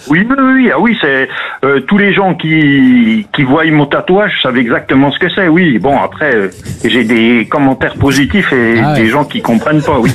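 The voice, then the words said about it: Mild Franche-Comté regional accent. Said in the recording (French): “l'accent magnifique ... l'accent du Jura ... L'accent doubiste ... On a un accent qui se reconnaît facilement ... Légèrement ... Franchement, discret.”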